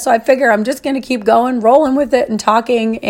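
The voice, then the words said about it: Voice sounds unusual, strained. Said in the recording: “my voice is crazy again, but there's nothing I can do about it”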